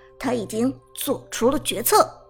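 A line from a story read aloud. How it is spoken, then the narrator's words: Deep, grave voice. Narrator (Chinese): Emperor 战队的辅助孙膑沉声说道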